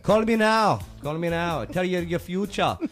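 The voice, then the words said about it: Put-on Jamaican accent. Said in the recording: “Jamaican accent ... Miss Cleo”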